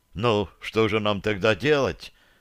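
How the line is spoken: Crushed, dejected question. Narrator (Russian): совершенно убитым голосом спросил Ричард

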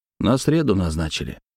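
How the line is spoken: Gloomy. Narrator (Russian): мрачно выговорил Олег

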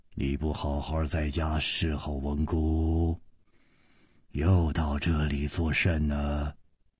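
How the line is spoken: Low commanding voice. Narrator (Chinese): 这个声音低沉之中隐隐有微，一听那就知道是惯于发号施令的人

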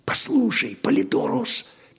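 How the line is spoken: Quiet jester. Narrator (Russian): Тихо предложил скоморох

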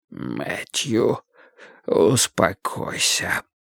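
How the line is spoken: Pained warning whisper. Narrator (Russian): предупредил Вудвард своим болезненным шепотом

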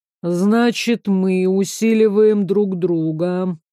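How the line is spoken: Thoughtful drawl. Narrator (Russian): протянул задумчиво Харт

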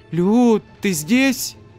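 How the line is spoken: Exclamation. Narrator (Russian): воскликнул

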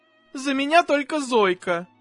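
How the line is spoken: Mother's plaintive sob. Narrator (Russian): жалобно всхлипнула мама

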